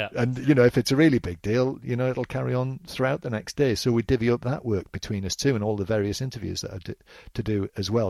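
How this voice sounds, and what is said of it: Northeast English accent. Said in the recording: “You've obviously got the Northeast origins ... a Northeast accent.”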